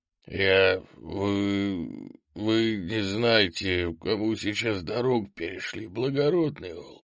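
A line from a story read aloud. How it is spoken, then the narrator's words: Hoarse. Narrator (Russian): хрипло сказал мужик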